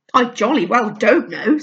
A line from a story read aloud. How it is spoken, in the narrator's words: said Lou quite crossly